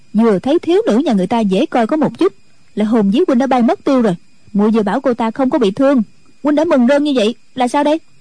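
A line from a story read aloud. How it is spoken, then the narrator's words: Sulky village girl. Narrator (Vietnamese): Thôn nữ hậm hực nói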